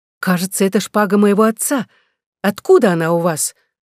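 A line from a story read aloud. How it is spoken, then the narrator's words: Exclaimed. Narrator (Russian): Екатерина Сейтон воскликнула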